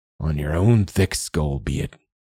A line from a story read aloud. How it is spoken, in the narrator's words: he muttered